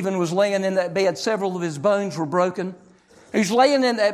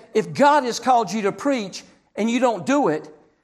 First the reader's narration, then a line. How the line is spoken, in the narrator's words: he said